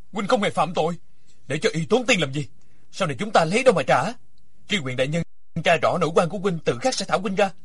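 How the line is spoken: Loud and angry. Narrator (Vietnamese): Địch Dân càng tức giận lớn tiếng

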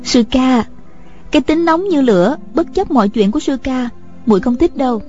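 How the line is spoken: Smiling young woman. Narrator (Vietnamese): Nữ lang mỉm cười

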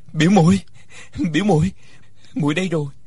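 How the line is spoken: Calling out. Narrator (Vietnamese): Uông Khiếu Phong kêu lên

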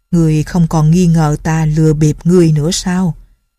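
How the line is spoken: Old man's cold laugh. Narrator (Vietnamese): Ông lão cười nhạt nói

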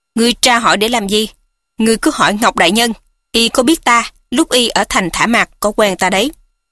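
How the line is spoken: Angry speech. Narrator (Vietnamese): La Tiểu Hổ biến sắc tức giận nói

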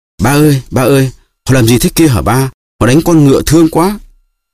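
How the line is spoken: Child crying out. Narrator (Vietnamese): Raskolnikov kêu lên

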